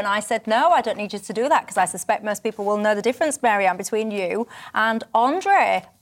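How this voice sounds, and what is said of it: Northern English accent. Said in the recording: “I'm the northern one in the middle ... My accent, by the way, was described the other day as an out-of-date violin or something, an out-of-date cat or something, getting ran over by a lawnmower.”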